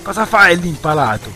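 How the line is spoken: Shouted. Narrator (Italian): gli gridò Learco

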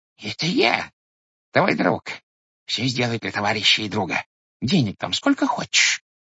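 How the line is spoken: Squeaky voice into ear. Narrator (Russian): пискнул он ему в левое ухо

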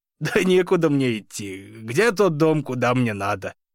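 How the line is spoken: Half laughing, half coughing. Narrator (Russian): То ли засмеялся, то ли закашлялся Саша

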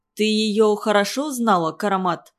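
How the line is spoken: Plain. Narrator (Russian): спросил Абдухафиз

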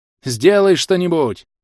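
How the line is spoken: Shout. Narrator (Russian): крикнул

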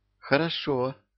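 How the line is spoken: Sighing. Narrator (Russian): вздохнула Марьюшка

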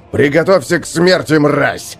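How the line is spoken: Roaring. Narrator (Russian): взревел сержант Хакон

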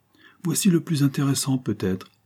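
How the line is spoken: Shout. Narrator (French): cria-t-il

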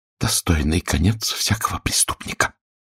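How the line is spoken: Whisper. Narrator (Russian): прошептала она

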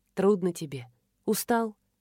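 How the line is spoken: Gentle question. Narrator (Russian): ласково спросила она

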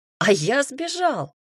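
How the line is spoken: Joyful answer. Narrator (Russian): радостно ответил Кир

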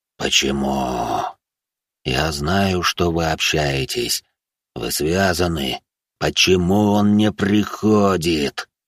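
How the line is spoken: Growled. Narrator (Russian): прорычал мужчина

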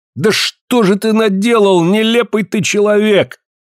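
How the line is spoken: Shouted. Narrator (Russian): крикнул Ка

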